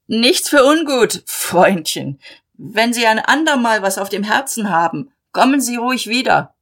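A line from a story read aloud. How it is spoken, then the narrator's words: Calling after. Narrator (German): Malmann rief ihm nach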